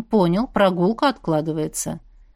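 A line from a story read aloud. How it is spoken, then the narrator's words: Businesslike. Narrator (Russian): деловым тоном отметил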